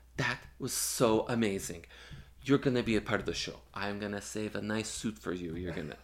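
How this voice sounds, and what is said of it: Put-on accent quoting someone. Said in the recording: “I'm doing an accent.”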